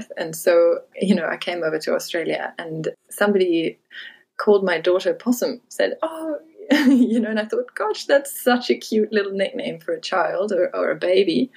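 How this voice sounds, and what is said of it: German accent. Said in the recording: “you might be able to tell from my accent that I'm German by birth”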